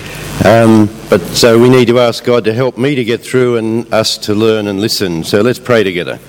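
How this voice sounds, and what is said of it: Croaky voice. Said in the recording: “My voice is a bit croaky.”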